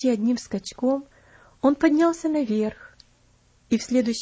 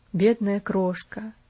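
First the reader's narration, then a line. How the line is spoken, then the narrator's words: Muttered again. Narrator (Russian): пробормотал он опять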